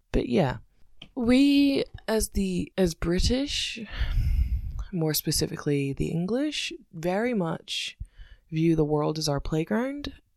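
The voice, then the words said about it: Scottish accent mixed with English. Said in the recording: “sounds like this, which is confused and confusing ... I'm not American or Canadian ... I'm Scottish with a weird accent”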